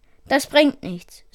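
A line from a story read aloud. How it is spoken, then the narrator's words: Sighed. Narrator (German): seufzte Logan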